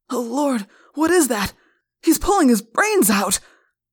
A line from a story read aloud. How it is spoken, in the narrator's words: one policeman cried in horror